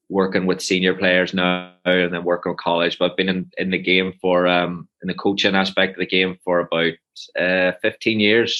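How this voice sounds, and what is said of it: Strong accent. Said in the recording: “your accent because it is quite strong still”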